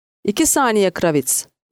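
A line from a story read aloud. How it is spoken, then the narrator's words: Shouting. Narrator (Turkish): diye bağırdı Stone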